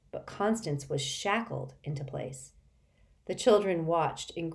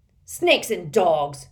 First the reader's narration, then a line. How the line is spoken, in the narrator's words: growled Mr